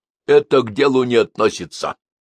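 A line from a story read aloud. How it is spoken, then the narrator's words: Stern priest. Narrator (Russian): строго ответствовал батюшка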